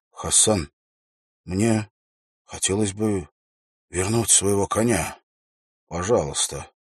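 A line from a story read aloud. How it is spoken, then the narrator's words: Quiet voice. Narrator (Russian): Уилл произнес тихим голосом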